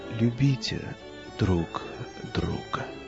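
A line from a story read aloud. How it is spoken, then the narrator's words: Quiet. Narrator (Russian): тихо сказал он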